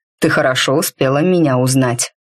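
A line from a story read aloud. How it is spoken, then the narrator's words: Pleased snort. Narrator (Russian): довольно хмыкнул в ответ Мрак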